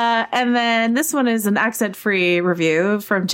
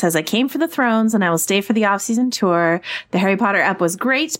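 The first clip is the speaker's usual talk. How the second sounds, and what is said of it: Failed attempt at Michigan accent. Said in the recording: “That is not Michigan ... That's Minnesota ... Michigan's more like a Chicago accent ... Yeah, that's sort of what I was trying to do. I failed miserably”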